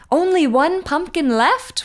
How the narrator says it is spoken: one said with a shriek

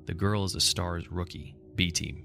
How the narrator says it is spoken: Wesker said

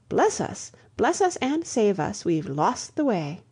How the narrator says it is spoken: she broke off and exclaimed

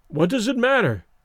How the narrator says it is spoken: he exclaimed desperately

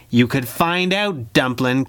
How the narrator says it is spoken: Kit snarled

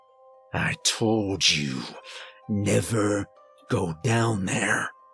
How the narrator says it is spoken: he snarled

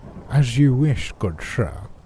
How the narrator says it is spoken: with a smile, and in a really bad British accent for dramatic effect, said

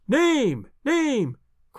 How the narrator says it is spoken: cried the audience

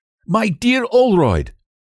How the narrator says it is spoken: he cried

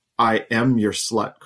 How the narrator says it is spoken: Carly said loudly and firmly

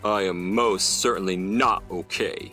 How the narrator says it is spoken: he growled

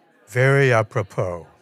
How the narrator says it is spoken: Dan and Jonathan chuckle, and Dan says

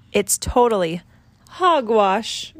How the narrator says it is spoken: grunted the pig

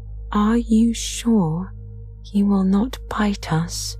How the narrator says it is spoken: the queen of the mice asked in a timid voice

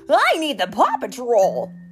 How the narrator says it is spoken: Captain Turbot exclaimed

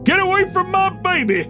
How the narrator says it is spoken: yelling

